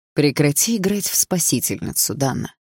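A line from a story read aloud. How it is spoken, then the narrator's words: Smooth, insinuating. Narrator (Russian): вкрадчиво произнес Андрей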